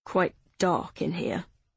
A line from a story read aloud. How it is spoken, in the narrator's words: Joe mumbled